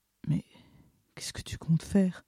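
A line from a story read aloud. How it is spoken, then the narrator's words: Breathless whisper. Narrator (French): entendis-je dans un souffle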